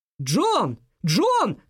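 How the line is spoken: Shouting. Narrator (Russian): кричала Марианна

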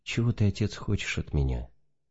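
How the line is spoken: Gentle, moved. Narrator (Russian): Тронутый глубоким верноподданническим смирением старца, император ласково спросил

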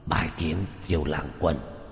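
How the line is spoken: Hoarse voice. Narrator (Vietnamese): Quỷ thi này dùng giọng khàn khàn nói

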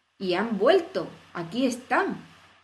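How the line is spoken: King's triumphant tone. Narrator (Spanish): dijo el rey en tono triunfal

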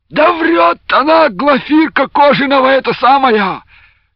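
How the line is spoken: Sudden shout from a captive. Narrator (Russian): неожиданно крикнул привязанный к бревну

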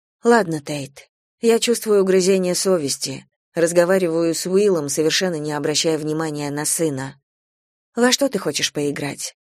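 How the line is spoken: Soft, suppressed anger. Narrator (Russian): Спрашиваю мягко, хотя внутри все кипит

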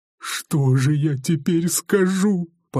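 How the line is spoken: Whimpering. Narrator (Russian): поскуливал он

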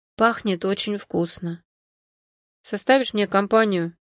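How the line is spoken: Indistinct mumble. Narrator (Russian): Невнятно пробормотал Альберт

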